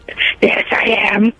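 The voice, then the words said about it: Gravelly Batman-style character voice. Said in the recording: “Are you giving me your Batman voice? ... Is that a bat voice? ... it's either Batman or it's very sick elderly person.”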